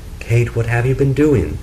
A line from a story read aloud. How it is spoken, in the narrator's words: he cried out